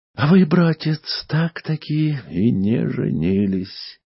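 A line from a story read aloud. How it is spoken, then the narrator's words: Sighed. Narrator (Russian): вздохнула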